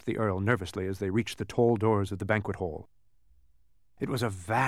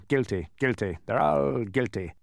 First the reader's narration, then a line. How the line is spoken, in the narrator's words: Officer Schrift wandered through the crowd, suspiciously muttering